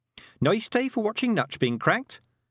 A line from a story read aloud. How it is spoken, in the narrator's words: said Tiffany cheerfully